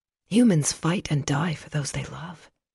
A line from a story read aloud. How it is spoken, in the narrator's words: Silver whispered